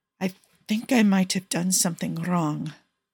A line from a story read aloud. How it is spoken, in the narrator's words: Paolo whispers nervously